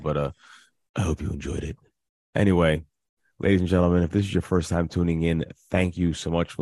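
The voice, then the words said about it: Raspy, hoarse voice. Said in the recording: “sexy voice ... my sexy raspy voice as I'm losing my voice”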